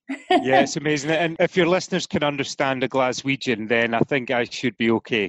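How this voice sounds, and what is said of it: Mild, lilting Scottish accent. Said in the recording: “another Scottish accent on the show ... the beautiful accent ... you're very mild in comparison, more of a lilting James Bond kind of thing going on”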